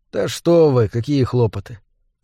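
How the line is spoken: Calm objection. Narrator (Russian): спокойно возразил Мур

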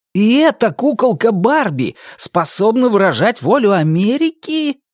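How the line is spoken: Disgusted exclamation. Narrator (Russian): воскликнул Дэйви с отвращением

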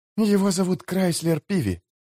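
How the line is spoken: Whispered explanation. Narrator (Russian): шепотом пояснила Эстер

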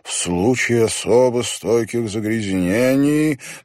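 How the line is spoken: Sonorous rolling voice reading aloud. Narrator (Russian): прочитал он вслух звучным раскатистым голосом

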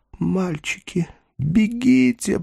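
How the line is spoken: Whisper. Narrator (Russian): прошептал Даймон

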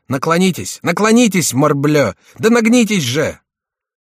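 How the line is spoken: Shouting. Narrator (Russian): кричал Шико

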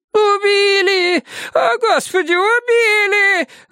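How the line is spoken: Woman screaming. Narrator (Russian): завопила какая-то женщина

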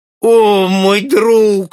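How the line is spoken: Groaning stranger. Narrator (Russian): застонал незнакомец

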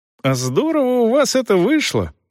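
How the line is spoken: Admiring exclamation. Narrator (Russian): восхищенно воскликнул Рич

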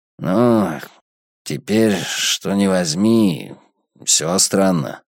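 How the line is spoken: Uncertain reply. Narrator (Russian): ответил он неуверенно

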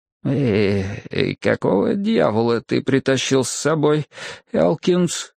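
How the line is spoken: Faltering question. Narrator (Russian): спрашивает, а у самого голос слегка запинается

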